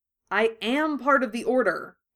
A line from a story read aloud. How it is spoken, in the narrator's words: Harry said firmly